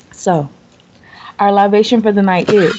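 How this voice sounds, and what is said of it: Sexy put-on voice. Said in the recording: “put on my central voice ... That was sexy, right? Gave them chills”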